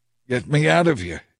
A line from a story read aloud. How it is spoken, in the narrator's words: Ahab groaned to the driver of his chariot